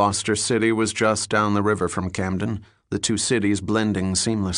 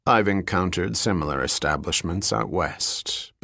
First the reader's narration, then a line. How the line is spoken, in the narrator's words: Bell said dryly